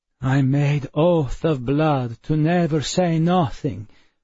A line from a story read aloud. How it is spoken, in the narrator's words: Perplexus said miserably